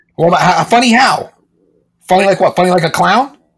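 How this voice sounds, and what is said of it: Joe Pesci impression. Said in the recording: “I assume it's going to be Joe Pesci.”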